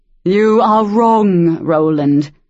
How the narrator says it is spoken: the throne boomed

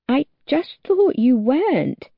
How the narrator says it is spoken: he says, his voice a little wobbly

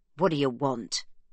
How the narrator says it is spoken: he asks gruffly

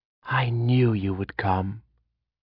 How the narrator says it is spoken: she whispered

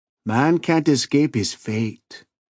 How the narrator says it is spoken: Escovada said gloomily

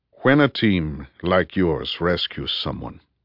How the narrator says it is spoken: Rudy said gently

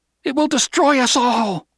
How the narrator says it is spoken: Juana cried

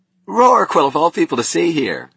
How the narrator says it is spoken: he cried

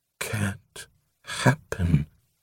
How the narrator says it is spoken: In a voice abstract with horror, he murmured

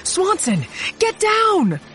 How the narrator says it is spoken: I yelled

